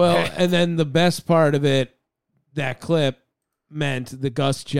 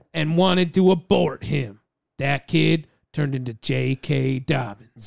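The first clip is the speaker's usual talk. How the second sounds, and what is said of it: Imitates another person's voice. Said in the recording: “This is my Gus Johnson impression. ... Gus Johnson impression was pretty solid.”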